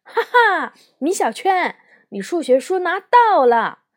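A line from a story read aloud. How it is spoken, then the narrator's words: Loud shout from behind. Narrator (Chinese): 姜小牙在我的后排大喊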